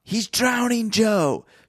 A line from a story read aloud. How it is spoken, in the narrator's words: shouted Frank